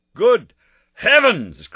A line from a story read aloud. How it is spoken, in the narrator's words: cried Holmes